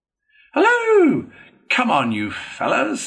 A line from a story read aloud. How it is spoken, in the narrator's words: cried, cheerfully on catching sight of them